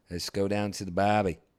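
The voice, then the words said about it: Attempted Australian accent. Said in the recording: “Australian. ... Oh, there you go. Now you're getting something.”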